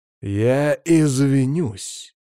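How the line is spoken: Spat out with great effort. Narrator (Russian): выплевывает Ник, и я представляю, сколько труда он приложил, чтобы выдавить эту фразу

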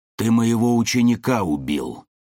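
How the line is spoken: Angry growl. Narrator (Russian): рыкнул Буров

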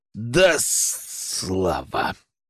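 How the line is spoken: Growling. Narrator (Russian): прорычал Гена

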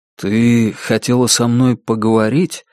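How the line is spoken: Soft. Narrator (Russian): мягко начал Сергей

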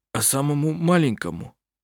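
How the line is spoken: Hoarse question. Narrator (Russian): Сипло спросил Густав

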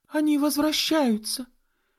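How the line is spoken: Exclamation. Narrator (Russian): воскликнула Энн

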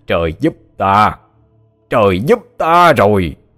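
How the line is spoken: Loud laughing skyward. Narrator (Vietnamese): Hắn ngửa mặt lên trời mà cười lớn

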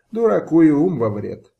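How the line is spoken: Laughing. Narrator (Russian): засмеялся Ислам-Гирей

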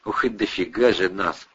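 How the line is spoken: Admiring sigh. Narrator (Russian): вздохнул, любуясь великолепной панорамой

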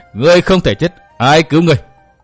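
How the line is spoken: Laughing madly. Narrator (Vietnamese): Trầm Khinh Hồng bật cười cuồng dại

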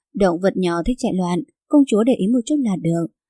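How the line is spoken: Relieved, laughing. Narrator (Vietnamese): Bảnh Mãn khẽ thở phào một hơi, cười nói

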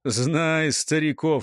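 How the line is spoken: Snorting. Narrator (Russian): хмыкнул гуляй

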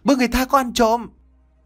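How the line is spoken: Startled loud shout. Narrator (Vietnamese): Bà Bảy như bừng tỉnh, bà tiếp tục hét lớn

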